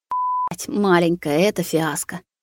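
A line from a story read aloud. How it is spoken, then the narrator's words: Groaned through teeth. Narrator (Russian): Сквозь зубы простонал Рустам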